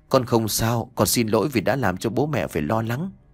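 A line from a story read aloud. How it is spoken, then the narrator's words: Gentle speech. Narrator (Vietnamese): Nhã Kiều nhẹ nhàng nói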